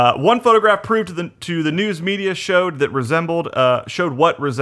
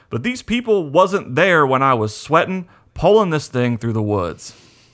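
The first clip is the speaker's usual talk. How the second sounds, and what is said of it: Well-done put-on Southern accent. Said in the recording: “Very well done with that southern accent”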